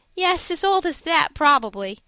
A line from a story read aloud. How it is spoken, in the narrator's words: said Fosdick, laughing